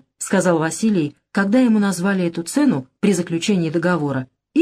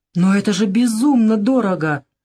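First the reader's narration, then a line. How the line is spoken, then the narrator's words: Exclamation. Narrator (Russian): воскликнул О'Кейли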